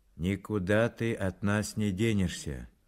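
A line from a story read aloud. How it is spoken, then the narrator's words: Gloomy announcement. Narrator (Russian): мрачно объявил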